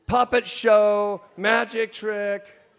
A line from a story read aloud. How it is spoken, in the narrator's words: Brittany screams